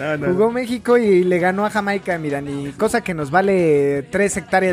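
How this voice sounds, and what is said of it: Usual voice. Nothing is said of it.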